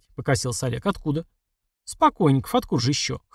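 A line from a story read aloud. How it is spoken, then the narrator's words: Boy's snort. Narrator (Russian): хмыкнул мальчишка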